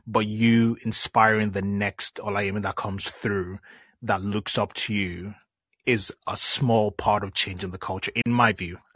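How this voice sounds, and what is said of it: Nigerian accent. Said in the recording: “I love your accent. ... It's Nigerian.”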